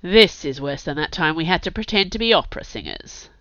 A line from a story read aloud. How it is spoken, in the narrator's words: Kurt muttered